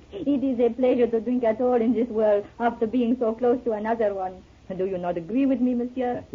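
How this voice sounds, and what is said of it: French accent. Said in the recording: “You're French, aren't you? ... Without that accent”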